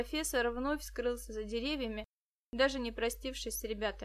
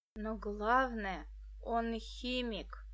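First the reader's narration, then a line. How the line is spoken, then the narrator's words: Sinister whisper. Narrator (Russian): зловеще прошептал Денис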